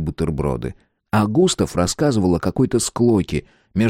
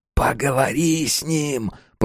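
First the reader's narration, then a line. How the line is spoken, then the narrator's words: Whispered. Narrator (Russian): прошептал он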